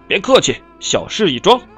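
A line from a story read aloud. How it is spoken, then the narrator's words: Loud. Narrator (Chinese): 艾米丽大声地说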